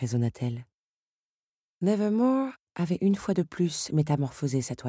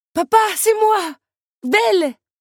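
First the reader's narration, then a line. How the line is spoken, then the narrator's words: Young woman exclaiming. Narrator (French): s'écria la jeune femme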